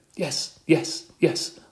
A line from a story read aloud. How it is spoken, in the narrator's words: I squeaked